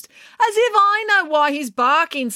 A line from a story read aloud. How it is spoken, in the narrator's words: snapped April